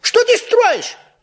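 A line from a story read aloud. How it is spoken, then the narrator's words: Surprised shout in unison. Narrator (Russian): в один голос закричали удивленные Ниф-Ниф и Нуф-Нуф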